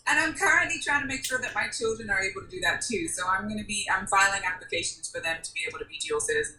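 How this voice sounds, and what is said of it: Speaks with a distinct accent. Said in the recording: “this amazing accent, which I'm in love with ... It was a lot stronger, of course, back in the day.”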